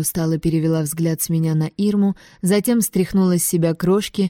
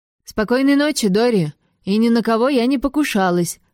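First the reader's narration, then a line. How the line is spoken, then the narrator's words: Shouting after someone. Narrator (Russian): крикнула я ей вдогонку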